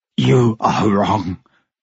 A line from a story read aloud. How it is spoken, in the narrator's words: Gabriel said, his voice choking under the man's grip